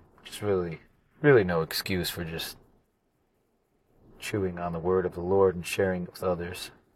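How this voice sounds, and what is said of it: Voice sounds sick, under the weather. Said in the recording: “I've been a bit under the weather, as you might be able to hear in my voice.”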